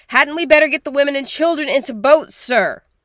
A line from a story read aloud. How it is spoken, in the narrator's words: Lights yelled, cupping his hand over his mouth